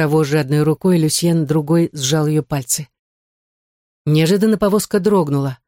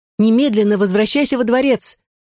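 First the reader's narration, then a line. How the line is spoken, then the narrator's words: Shout. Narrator (Russian): крикнула Мари-Жозеф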